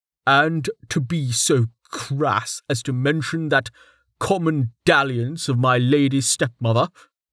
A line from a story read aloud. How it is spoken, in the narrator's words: he scoffed